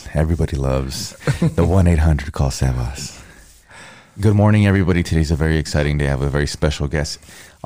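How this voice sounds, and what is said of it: Raspy morning radio-style voice. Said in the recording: “in the morning I have such a radio voice ... You got that raspiness.”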